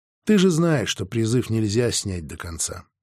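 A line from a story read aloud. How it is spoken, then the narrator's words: Quiet. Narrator (Russian): тихо ответил я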